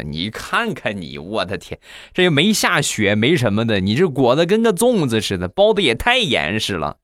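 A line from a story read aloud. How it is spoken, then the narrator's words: Mocking. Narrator (Chinese): 好多同事就嘲笑他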